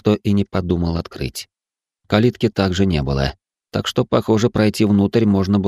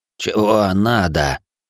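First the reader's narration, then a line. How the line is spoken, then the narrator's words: Creaky voice. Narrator (Russian): скрипучим голосом поинтересовался он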